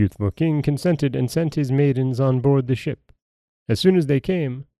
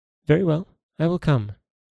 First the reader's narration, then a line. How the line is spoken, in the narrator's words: answered the princess